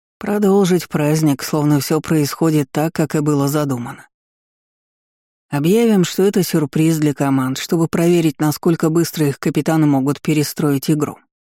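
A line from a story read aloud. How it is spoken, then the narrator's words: Plain. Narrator (Russian): ответил ректор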